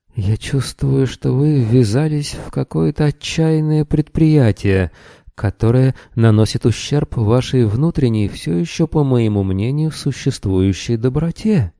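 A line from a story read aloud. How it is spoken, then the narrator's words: Trembling voice. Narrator (Russian): дрожащим голосом произнес триллианец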